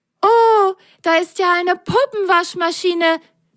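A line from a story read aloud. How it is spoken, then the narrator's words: Loud delighted cry. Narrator (German): Völlig entzückt rief Lili laut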